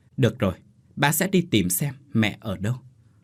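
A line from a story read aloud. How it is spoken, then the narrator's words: Very soft, gentle. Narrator (Vietnamese): anh lại nói rất khẽ với con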